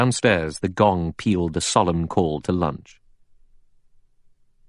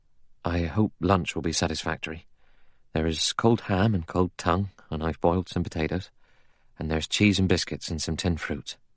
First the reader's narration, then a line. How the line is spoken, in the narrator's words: He said in a low, anxious voice